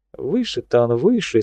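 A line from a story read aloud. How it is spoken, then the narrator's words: Plain. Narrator (Russian): сказал адмирал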